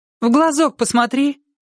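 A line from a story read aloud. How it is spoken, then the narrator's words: Shout. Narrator (Russian): крикнула ей Лена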